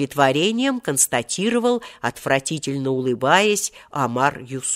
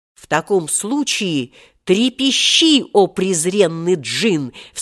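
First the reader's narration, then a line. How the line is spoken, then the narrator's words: Menacing shout. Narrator (Russian): вскричал Волька самым страшным голосом, каким только мог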